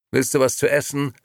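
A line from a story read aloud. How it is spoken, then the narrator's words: Slightly gruff question. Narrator (German): fragte Liliana ein wenig barsch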